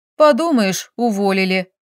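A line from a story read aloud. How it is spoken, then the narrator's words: Snorting, giggling, confident. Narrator (Russian): фыркнула я и, хихикнув, уверенно поддержала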